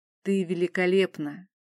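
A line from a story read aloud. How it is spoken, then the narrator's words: Quiet, prince. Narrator (Russian): тихо произнес князь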